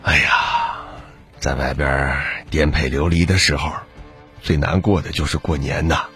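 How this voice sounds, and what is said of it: Quiet, murmuring voice. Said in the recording (Chinese): “小声的喃喃道”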